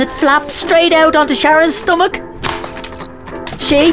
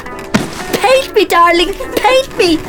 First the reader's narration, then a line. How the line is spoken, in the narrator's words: I yelped, surprised at my own excitement